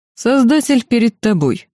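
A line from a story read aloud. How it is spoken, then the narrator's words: Mocking emperor. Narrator (Russian): насмешливо произнес император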